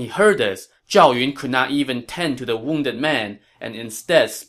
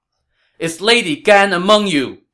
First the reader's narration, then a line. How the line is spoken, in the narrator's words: Zhao Yun shouted